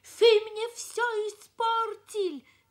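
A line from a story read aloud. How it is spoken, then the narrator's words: Shouting. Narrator (Russian): кричал он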